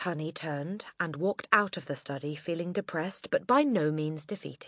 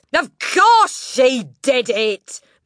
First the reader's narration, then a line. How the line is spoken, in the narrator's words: Miss Trunchbull boomed